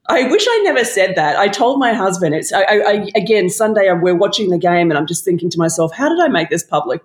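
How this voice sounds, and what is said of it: Australian accent. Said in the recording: “that's Australian accent? I thought it was Staten Island.”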